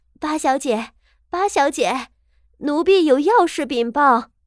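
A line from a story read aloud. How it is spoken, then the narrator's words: Shouting from courtyard. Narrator (Chinese): 外头的媳妇儿已经在院子里喊道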